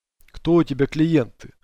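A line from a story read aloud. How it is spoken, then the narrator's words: Snorting. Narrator (Russian): хмыкнул дикарь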